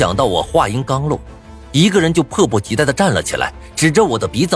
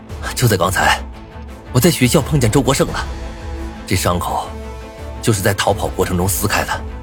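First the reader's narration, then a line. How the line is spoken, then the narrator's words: Low, heavy voice. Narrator (Chinese): 沉声道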